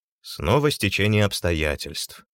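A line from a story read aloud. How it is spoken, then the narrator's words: Sighing. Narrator (Russian): вздохнул Кольцов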